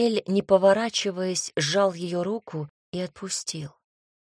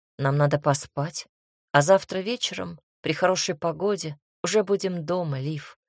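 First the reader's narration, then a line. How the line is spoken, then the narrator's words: Quiet, upset young woman. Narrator (Russian): тихо и расстроенно сказала девушка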